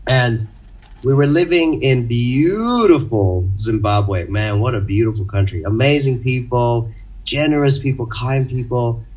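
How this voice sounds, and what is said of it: Unusual mixed international accent. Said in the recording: “I'm Indian and have this strange accent ... I spent my life growing up in different countries, 10 countries around the world”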